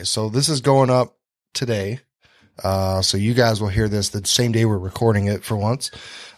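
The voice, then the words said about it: Slightly congested voice from a cold. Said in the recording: “I got just a cold ... I'm still, you can kind of hear it in my voice a little bit probably.”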